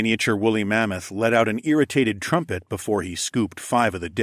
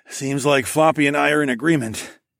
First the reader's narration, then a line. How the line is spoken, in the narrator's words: chuckled